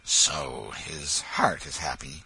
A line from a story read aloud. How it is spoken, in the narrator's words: The hermit muttered